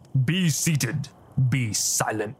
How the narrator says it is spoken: Bishop growled

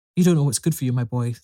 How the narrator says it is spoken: said Ignatius Gallagher

